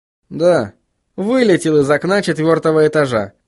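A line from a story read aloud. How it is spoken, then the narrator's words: Plain. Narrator (Russian): ответил Вильям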